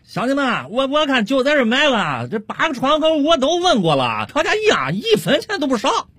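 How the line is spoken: Loud shout. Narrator (Chinese): 王老汉一边掏着钱，一边回身冲着他几个老乡大声喊道

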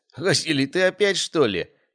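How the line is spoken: Choking with laughter. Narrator (Russian): давился от хохота Александр

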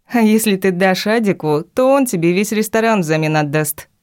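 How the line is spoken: Laughing. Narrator (Russian): рассмеялась

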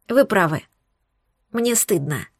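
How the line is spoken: Quiet admission. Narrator (Russian): тихо призналась я

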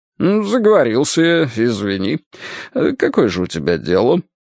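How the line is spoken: Hesitant sigh. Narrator (Russian): Алешка нерешительно вздохнул

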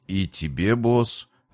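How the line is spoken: Confused mumble. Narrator (Russian): растерянно пробормотал Джокер

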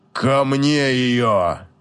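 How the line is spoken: Barely restrained furious growl. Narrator (Russian): Едва сдерживаясь, чтобы не обрушить замок, прорычал Лир

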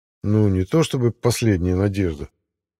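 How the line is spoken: Grumbling. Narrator (Russian): проворчал игрок

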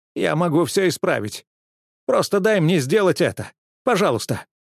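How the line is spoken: Whimpering male. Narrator (Russian): заскулил он

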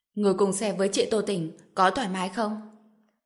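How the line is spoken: Cold jealous question. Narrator (Vietnamese): Giang Uyển mới tỏ ra ghen tuông, lạnh lùng hỏi

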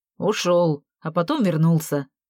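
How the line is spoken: Angry. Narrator (Russian): сердито произнес Виталя

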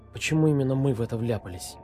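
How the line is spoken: Whisper. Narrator (Russian): прошептала Оля

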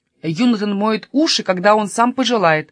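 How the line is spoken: Angry, clipped. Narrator (Russian): зло чеканил Каспер

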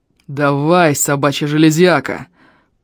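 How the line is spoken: Growl. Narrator (Russian): прорычал Эльм

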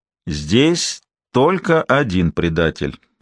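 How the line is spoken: Even, cold voice. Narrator (Russian): ровным холодным голосом сказал Харзион

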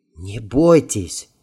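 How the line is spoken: Quiet, in Russian. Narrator (Russian): негромко произнес по-русски

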